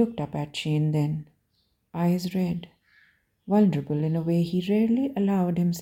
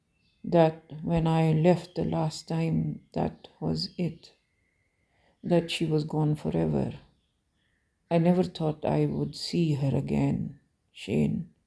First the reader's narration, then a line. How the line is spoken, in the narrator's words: Ilya said quietly